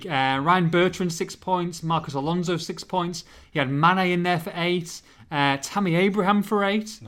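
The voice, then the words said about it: Hull English accent. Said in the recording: “Is that your ridiculous accent? ... Well, it's because I'm from Hull.”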